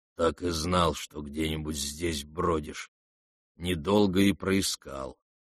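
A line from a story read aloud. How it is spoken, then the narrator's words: Muttered through teeth. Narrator (Russian): пробормотал сквозь зубы Рогожин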